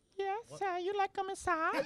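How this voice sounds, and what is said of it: Put-on fake voice. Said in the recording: “if you could put a fake voice on... Can I get a fake voice, somebody?”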